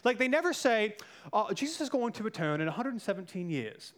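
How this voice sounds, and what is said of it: Put-on British accent. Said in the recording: “Why am I doing this British accent? I don't know why I'm doing the British accent. ... It sounds smarter, right?”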